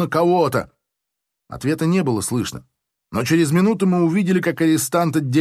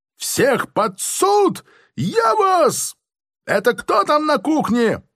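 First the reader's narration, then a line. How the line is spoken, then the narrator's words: Shriek. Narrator (Russian): взвизгнул он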